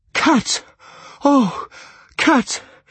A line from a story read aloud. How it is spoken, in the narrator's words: he cried